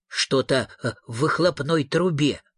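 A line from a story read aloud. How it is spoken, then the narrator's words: Muttering. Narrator (Russian): бормотал он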